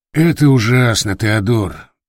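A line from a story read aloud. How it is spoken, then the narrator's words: Sigh. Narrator (Russian): вздохнул Дердаген Тур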